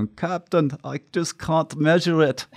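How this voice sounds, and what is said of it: Bad Scotty character impression. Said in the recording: “that's my horrible Scotty. I can't do accents”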